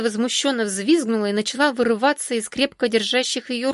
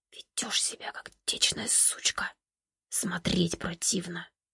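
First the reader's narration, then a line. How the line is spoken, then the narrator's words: Whispering in ear. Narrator (Russian): Он прошептал ей на ухо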